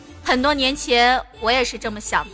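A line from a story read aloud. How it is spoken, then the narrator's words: Calm, indifferent. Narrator (Chinese): 我妈就会淡淡的看我一眼，扭过头去说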